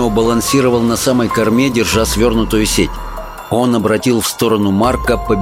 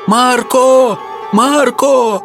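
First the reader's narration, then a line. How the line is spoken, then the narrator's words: Shout. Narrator (Russian): крикнула Перла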